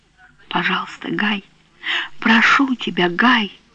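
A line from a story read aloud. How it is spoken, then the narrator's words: Whisper. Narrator (Russian): Она прошептала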